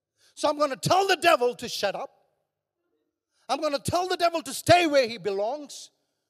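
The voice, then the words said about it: Raised, loud preaching voice. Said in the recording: “I'm raising my voice ... raising my voice”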